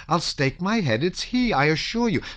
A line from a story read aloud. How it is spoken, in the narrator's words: screamed Natasha